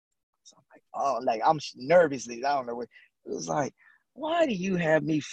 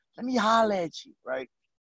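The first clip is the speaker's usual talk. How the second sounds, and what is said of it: Raspy imitated father's voice. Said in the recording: “in that raspy voice”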